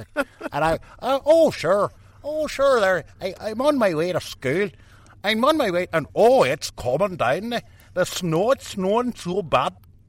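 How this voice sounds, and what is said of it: Strong old-fashioned Northern Irish accent. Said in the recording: “what I'm guessing is a 1920s Northern Irish accent ... It's a wee accent there, like talking on the back of the throat there”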